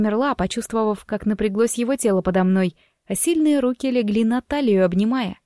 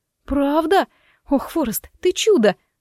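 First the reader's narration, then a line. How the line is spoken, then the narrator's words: Exclaiming. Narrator (Russian): воскликнула я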